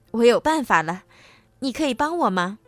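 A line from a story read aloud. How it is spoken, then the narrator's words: Smiling. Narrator (Chinese): 她笑着对翡翠仙子说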